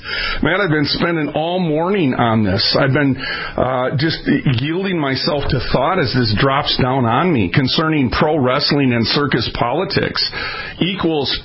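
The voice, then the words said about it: Loud, near-yelling into microphone. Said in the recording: “you don't have to yell into the microphone”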